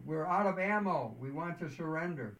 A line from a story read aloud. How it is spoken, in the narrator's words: someone yelled